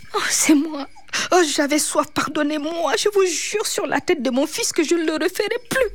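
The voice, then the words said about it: Small, timid character voice. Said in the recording (French): “avec une petite voix timide”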